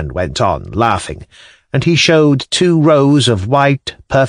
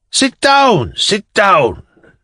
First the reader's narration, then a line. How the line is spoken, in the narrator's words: the old man shouted impatiently